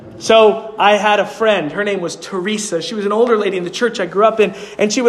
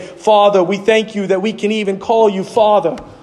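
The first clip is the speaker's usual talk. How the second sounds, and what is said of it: Thick New York accent. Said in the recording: “With the thick New York accent”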